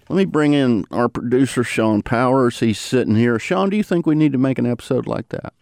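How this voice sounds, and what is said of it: Southern twang or drawl. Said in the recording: “all of us who speak in a Southern twang or drawl, of which there are many varieties”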